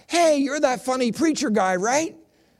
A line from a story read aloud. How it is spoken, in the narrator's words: this young woman, about 40 years old, yells